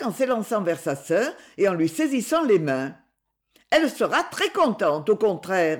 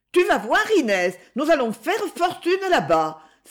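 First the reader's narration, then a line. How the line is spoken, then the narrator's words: Enthusiastic exclamation. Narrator (French): s'écria Jacques avec enthousiasme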